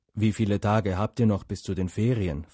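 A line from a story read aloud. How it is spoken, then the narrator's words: Plain question. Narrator (German): fragte Hagrid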